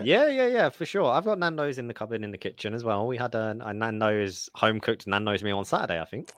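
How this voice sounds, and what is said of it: Cute, slight non-American accent. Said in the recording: “you have the nice little accent. It just sounds so cute, the cupboard.”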